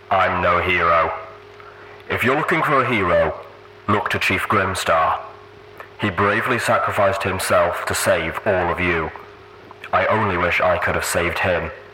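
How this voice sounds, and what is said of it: Deep rumbling character voice. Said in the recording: “Steelhoof's deep voice rumble from the box”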